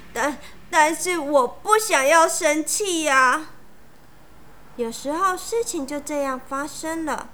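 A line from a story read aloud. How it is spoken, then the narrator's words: Crying. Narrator (Chinese): 盖伊哭着说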